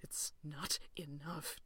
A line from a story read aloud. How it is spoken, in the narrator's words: John whispers